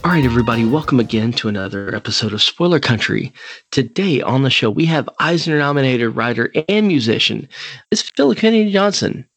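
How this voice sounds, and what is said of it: Silky smooth radio announcer voice. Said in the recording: “what a silky smooth radio voice you have. ... that's my NPR voice.”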